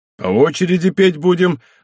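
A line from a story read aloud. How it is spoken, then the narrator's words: Joyful exclamation. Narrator (Russian): воскликнул обрадованный Зых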